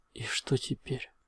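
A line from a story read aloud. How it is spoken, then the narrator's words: Quiet question. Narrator (Russian): тихо спросил я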